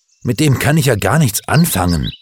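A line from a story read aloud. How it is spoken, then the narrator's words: Angry statement. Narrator (German): stellte Gerd gegenüber seinen Eltern wütend fest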